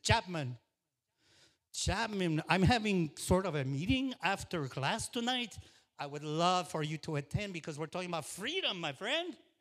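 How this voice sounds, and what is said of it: Cuban-accented quoted voice. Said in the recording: “Casola is Cuban ... that man, with his accent”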